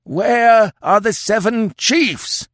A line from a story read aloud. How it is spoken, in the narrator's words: howled the old chief